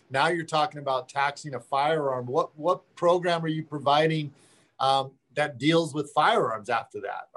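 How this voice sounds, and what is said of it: Hoarse, strained voice. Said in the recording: “losing my voice”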